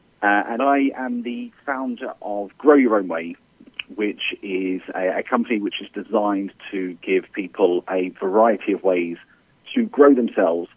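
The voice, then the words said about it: British accent. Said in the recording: “you may tell from the accent, I'm originally from the UK”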